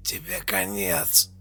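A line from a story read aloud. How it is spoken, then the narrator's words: Choked rasp. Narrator (Russian): Прохрипел придушенный помощник, пытаясь выбраться из захвата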